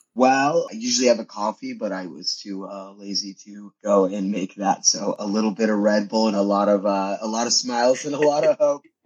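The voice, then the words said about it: Slightly hoarse voice. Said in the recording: “My voice is a little hoarse today”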